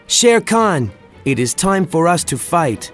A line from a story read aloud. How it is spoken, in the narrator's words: He shouted out